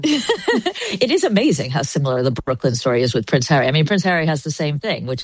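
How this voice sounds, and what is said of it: American accent. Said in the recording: “Your accent, leads me to believe that you can answer this question boldly. ... All of us American women”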